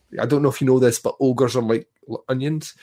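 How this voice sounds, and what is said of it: Outlandish put-on Shrek accent. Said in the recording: “your outlandish accent”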